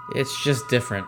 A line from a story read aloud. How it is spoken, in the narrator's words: I mumbled, regretting the decision to pursue this topic of discussion